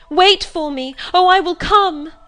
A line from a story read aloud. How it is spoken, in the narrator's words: I cried